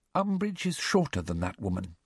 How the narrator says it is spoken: she said quietly

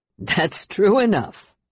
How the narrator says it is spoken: Aaron stated, laughing

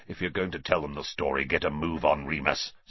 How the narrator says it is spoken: snarled Black

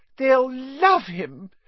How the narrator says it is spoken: cried Aunt Petunia rapturously

